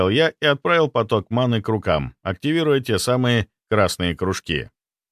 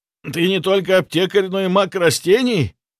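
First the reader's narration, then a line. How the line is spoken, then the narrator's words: Shouted. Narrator (Russian): прокричал он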